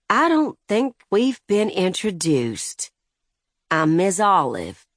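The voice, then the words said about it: Thick elderly Southern lady accent. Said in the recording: “in her thickest elderly southern lady accent.”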